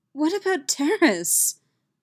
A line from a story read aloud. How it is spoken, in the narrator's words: Mission pleaded